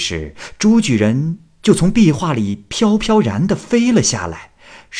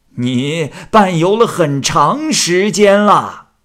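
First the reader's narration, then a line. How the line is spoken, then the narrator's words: Old man calling out. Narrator (Chinese): 老和尚又叫了声说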